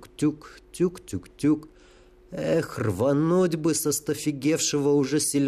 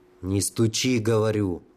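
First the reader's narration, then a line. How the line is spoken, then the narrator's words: Angry hush. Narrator (Russian): уже сердито шикнул Бульба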